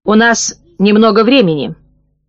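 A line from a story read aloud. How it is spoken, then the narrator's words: Cold. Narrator (Russian): холодно произнес Аскольд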